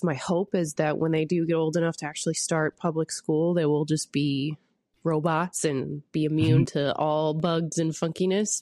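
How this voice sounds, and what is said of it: Congested, stuffy-nosed voice. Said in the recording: “I sound a little congested because my kids have brought home yet another plague from daycare”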